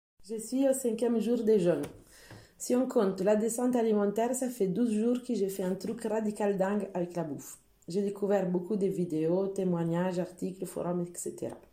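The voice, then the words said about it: Italian accent speaking French. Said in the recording (French): “son magnifique accent italien”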